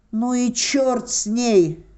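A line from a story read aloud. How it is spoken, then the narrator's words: Shout. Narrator (Russian): закричал я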